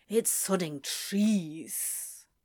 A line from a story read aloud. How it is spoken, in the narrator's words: Crowley said under his breath